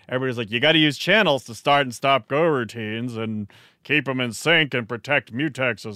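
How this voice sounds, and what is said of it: Exaggerated grumpy old man voice. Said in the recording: “That's his grumpy old man voice. ... My normal voice is my grumpy old man voice. That was my grumpier old man voice.”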